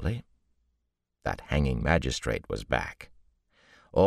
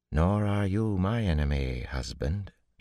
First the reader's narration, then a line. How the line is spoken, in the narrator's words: she said coolly